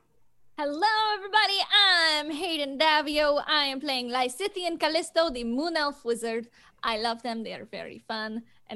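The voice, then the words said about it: Put-on character accent. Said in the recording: “this is the accent that they do”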